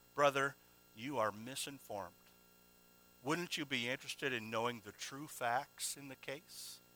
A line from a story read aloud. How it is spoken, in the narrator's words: quietly presented